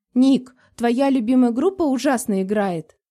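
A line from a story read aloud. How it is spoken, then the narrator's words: Laughing, insistent girl. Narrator (Russian): посмеялась девушка, проявляя излюбленную настойчивость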